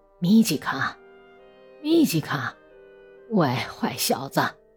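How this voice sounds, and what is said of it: Hushed, quiet calling out. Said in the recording (Chinese): “小声喊道”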